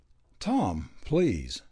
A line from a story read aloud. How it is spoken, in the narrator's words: the girl stammered